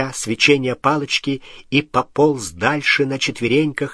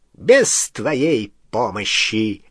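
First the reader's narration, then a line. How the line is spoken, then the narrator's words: High, clear voice. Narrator (Russian): отозвался Волан-де-Морт высоким, ясным голосом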